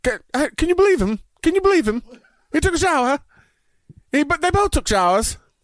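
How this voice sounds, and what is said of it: Put-on English accent. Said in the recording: “I don't know how good my English accent is.”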